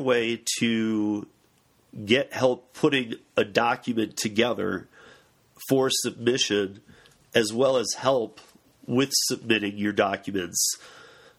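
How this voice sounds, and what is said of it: Hoarse voice. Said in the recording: “Excuse my fo- my voice, folks. I'm a, I've been a little hoarse”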